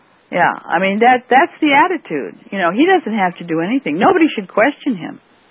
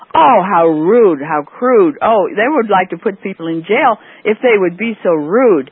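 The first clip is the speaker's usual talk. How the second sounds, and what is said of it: Sarcastic, mocking tone. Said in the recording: “I'm being sarcastic.”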